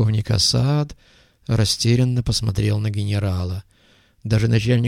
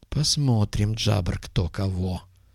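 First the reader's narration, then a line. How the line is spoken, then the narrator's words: Muttered. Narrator (Russian): пробормотал генерал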